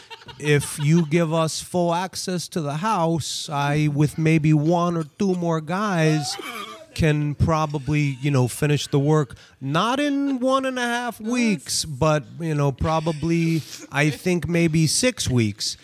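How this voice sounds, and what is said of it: Impression of a friend. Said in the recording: “do a Shimmy impression”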